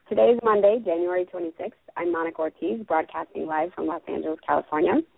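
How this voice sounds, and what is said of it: Raspy, hoarse voice. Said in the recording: “I just got over laryngitis, so you're going to hear a raspy voice”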